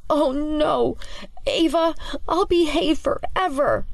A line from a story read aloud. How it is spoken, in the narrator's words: Clancy whimpers his objection to Ava's shenanigans as he struggles to keep the books held high